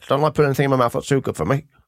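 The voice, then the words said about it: Impression of Jimmy Savile. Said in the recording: “That was actually a good impression as well. ... That was very good, yeah.”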